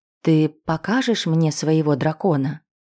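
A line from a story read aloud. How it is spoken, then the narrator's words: Forced calm, suppressing a smile. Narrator (Russian): еле сдержал новую улыбку, но, собрав силы, постарался спокойно ответить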